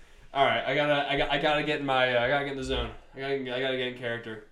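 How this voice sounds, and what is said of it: Usual voice. Nothing is said of it.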